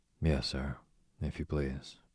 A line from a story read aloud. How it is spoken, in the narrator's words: murmured the boy